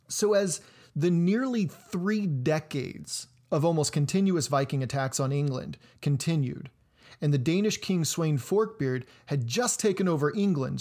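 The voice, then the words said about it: Twangy American Midwestern drawl. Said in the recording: “my twangy American Midwestern drawl”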